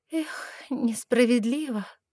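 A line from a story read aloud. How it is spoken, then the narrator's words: Unintentional sigh aloud. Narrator (Russian): вздохнула Лиса, даже не заметив, что высказалась вслух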